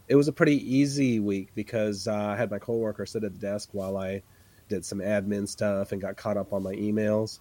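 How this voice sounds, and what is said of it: Congested voice from a cold. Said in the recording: “it sounded like I had a cold on the last episode ... I'm still trying to shake this cold, so I'm sorry about my voice.”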